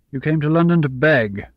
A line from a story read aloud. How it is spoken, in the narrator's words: Papa said harshly